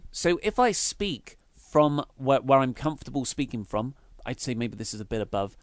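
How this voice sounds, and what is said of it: Nasal throaty voice. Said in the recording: “This is me speaking from my throat ... my voice is quite nasal”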